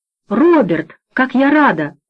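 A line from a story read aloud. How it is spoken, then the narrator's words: Exclamation. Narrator (Russian): воскликнула Эльвира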